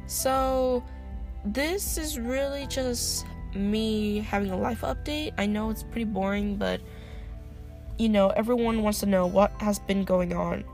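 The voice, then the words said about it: Tired, sick-sounding voice. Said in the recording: “My voice is very weird right now because I'm very tired, I'm very sick still”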